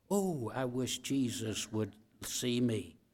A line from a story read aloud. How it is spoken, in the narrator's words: he whispered and said